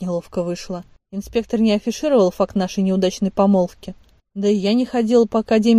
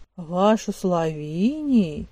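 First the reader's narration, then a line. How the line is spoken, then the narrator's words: Drawling. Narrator (Russian): протянул ректор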